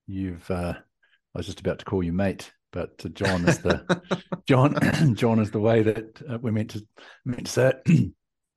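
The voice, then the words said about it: New Zealand accent. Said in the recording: “You hear from my accent and lingo ... I'm from New Zealand, down from the deep south”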